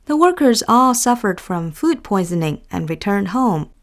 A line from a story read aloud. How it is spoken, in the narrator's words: Fan answered calmly